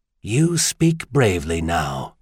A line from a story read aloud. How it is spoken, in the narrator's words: the Schulerite said coldly, softly